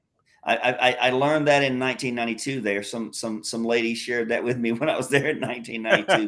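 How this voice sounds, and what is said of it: American southern accent. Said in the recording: “they would recognize a different accent ... The southern accent”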